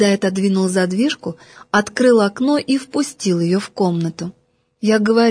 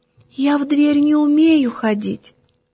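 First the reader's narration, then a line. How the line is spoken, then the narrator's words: Very thin voice. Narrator (Russian): тоненьким-тоненьким голоском отвечает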